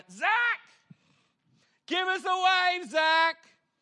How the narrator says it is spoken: this guy yells out

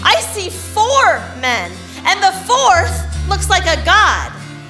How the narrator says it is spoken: Nebuchadnezzar shouted

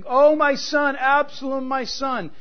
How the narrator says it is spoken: you are openly and loudly weeping

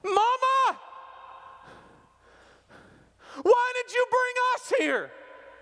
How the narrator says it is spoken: they screamed

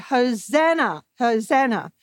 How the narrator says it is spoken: yelled and shouted

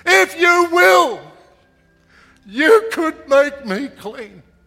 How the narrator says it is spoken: he cried out with everything that was within him

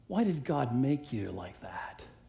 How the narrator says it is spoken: Satan whispers

